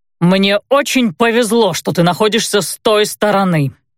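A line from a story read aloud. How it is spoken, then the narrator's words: Angry, curt. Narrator (Russian): Зло бросил Кен Линди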